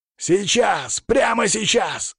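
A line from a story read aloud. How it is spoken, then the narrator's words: Bark. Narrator (Russian): рявкнул я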